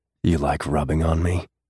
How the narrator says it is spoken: He growled against her mouth

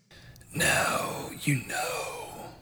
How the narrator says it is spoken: the crow whispered

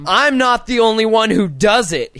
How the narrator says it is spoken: he yelled

